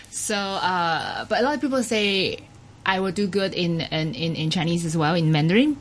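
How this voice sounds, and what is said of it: Taiwanese-accented English. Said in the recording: “I think I still have the accent for, like, my lovely Taiwanese accent.”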